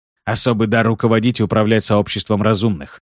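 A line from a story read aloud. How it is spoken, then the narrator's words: Plain. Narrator (Russian): ответил Шиз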